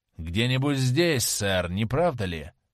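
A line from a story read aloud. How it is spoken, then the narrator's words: Muffled question. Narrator (Russian): глухо спросил кучер в верхнее окошечко кэба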